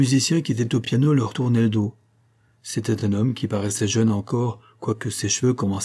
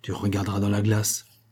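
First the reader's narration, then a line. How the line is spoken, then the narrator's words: Low voice. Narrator (French): ajouta-t-il à mi-voix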